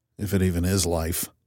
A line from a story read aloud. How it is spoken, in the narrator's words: I mumbled